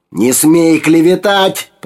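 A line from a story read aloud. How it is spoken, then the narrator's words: Roared. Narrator (Russian): проревел Абрахам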